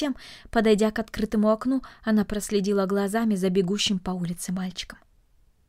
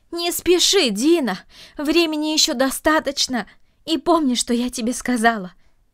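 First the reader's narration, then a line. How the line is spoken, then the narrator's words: Shouting after someone. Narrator (Russian): крикнула она ему вслед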